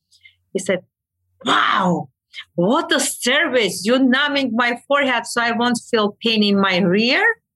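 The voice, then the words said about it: Non-native English accent. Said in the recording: “me with my accent, he with his accent. ... So my accent kills me.”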